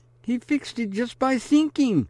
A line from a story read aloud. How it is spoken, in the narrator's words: exclaims